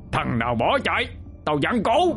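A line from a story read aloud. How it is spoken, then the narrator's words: Distant roaring shout. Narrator (Vietnamese): tiếng hét, kèm theo tiếng gầm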